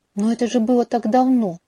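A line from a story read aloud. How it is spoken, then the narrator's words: Stunned exclamation. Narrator (Russian): шарашенно воскликнула я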